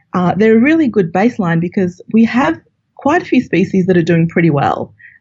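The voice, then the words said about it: Australian accent. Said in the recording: “as you can tell from my accent, I'm from Australia”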